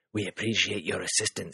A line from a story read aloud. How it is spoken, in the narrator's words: he said, his voice surprisingly soft